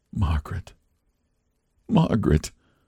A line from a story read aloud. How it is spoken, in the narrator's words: he whispered